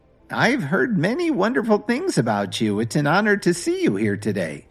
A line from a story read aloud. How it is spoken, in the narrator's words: Grandma replied sweetly